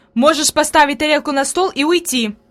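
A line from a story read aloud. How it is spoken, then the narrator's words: Angry. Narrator (Russian): произнесла сердито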